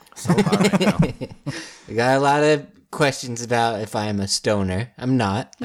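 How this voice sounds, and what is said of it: Slow, slightly slurred speech. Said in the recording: “I just talk a little slow and slur my words a little bit.”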